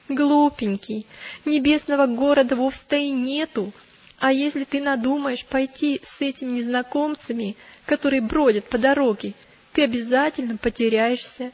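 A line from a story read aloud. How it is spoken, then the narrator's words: Laughing, mocking. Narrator (Russian): она только рассмеялась, как и его товарищи, и сказала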